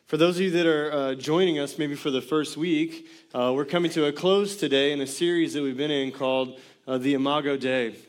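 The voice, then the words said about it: Hoarse, strained voice. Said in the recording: “Started losing my voice a bit in the first gathering”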